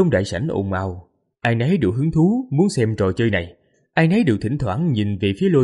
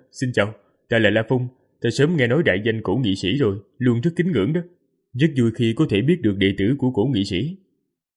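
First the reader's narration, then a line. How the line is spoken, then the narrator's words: Smiling speech. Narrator (Vietnamese): Mỉm cười nói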